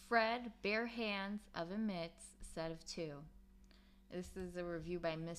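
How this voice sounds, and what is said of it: Usual voice. Nothing is said of it.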